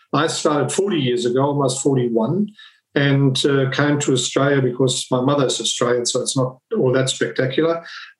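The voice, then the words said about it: German-accented English. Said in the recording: “I'm originally from Germany. My accent most probably gives me away.”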